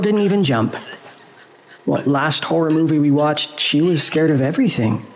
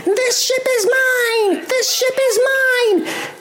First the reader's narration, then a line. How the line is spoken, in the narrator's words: the spider queen leapt at the captain's throat, biting him and screaming